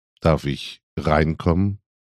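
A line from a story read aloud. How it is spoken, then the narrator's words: Gentle question. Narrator (German): fragte sanft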